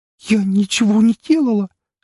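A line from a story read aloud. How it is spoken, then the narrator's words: Choked trembling voice. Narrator (Russian): сдавленным, дрожащим голосом произнесла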